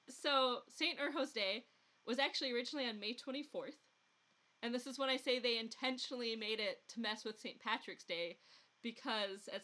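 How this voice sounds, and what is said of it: Rural Midwestern accent. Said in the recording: “Along the Mississippi, where the Wisconsin-Minnesota accents mix ... I might be slipping even further into the extremely rural Midwestern accent I picked up as a kid ... that oh and bouncy sound that you get in the rural Midwestern accent”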